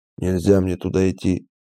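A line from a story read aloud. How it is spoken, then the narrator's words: Gruff mutter. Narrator (Russian): буркнул он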